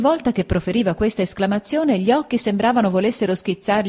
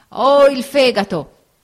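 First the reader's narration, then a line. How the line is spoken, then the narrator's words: Old man shouting. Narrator (Italian): gridò il vecchio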